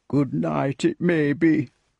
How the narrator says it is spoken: muttered the pig grumpily

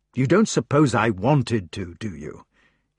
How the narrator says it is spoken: he asked bitterly

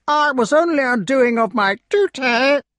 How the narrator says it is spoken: whined the crow

